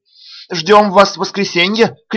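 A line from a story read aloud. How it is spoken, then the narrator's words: Shouted from below. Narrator (Russian): крикнула она мне снизу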